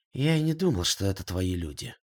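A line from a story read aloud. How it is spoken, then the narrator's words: Gloomy. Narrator (Russian): мрачно ответил Багиров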